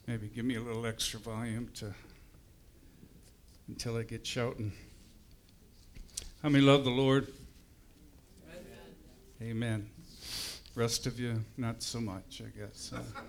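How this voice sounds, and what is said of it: Strained, struggling voice. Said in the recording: “My voice is a little struggling today, so bear with me.”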